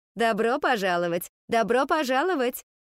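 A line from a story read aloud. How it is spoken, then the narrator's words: Cheerful greeting. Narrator (Russian): Весело приветствовала она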